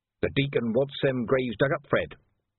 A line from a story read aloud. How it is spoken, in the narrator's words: said Leggy in a sulky voice